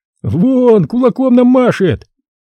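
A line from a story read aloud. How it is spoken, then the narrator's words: Joyful announcement. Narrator (Russian): радостно сообщил Лученков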